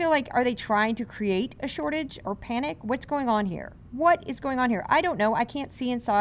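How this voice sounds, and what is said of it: Usual voice. Nothing is said of it.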